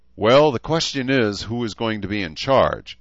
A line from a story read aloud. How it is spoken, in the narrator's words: Edmund replied with a chuckle